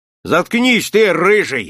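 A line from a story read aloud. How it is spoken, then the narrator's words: Barked. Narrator (Russian): рявкнул на Николая Чураков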